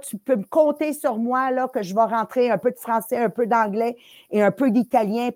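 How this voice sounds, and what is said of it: Non-native accent. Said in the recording (French): “Moi, peu importe la langue que je parle, là, il y a toujours un accent.”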